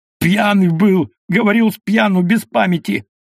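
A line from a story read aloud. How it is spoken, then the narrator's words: Wailing, spluttering scream. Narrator (Russian): Шокловитый вопленно закричал, брызгая слюной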